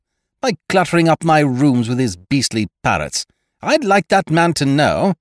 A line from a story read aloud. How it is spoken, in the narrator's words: cried, becoming the outraged householder